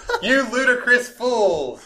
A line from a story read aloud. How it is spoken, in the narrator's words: shouted